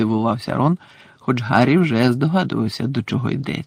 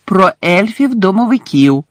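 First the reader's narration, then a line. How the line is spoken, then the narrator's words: Loud. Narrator (Ukrainian): голосно сказала Герміона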